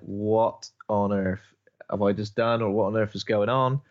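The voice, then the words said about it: Imitates a film character's voice. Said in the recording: “I like your impression, because it's almost like, I don't know, it doesn't quite match what's actually happening in the film.”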